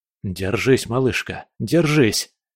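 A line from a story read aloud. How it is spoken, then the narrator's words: Strained whisper. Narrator (Russian): шептал я, напрягая все свои силы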